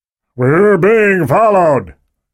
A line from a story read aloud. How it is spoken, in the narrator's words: Gunderson shouted to the rear of the Jeep